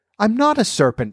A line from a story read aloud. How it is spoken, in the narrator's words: said Alice indignantly